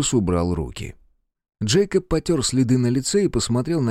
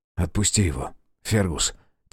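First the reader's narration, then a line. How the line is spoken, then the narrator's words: Quiet. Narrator (Russian): тихо сказал Грей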